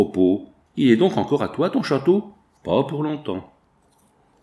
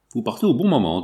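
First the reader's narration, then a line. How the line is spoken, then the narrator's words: Plain. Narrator (French): dit l'interne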